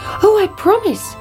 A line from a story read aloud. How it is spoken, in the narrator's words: cried the princess